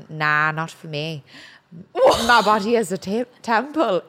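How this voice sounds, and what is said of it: Thick put-on Irish accent. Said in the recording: “in his thickest Irish accent ... Is that a good accent? ... Oh my God, that's pretty good actually, yeah.”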